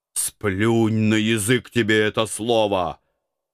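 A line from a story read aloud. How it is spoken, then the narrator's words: Growled. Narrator (Russian): рыкнул я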